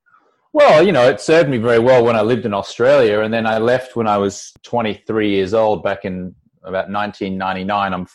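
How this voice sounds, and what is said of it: Australian accent. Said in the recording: “You can probably tell I have a funny Australian accent”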